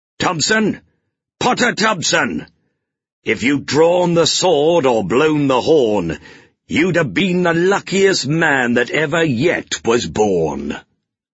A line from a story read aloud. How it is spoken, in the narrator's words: An angry voice called out